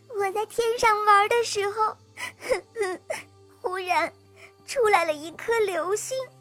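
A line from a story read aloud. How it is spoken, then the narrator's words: Sad, crying. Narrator (Chinese): 小星星一边伤心地哭着，一边回答道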